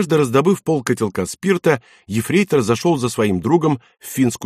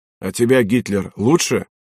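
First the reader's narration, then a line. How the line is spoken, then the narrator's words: Angry reply. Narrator (Russian): Из угла злобно ответили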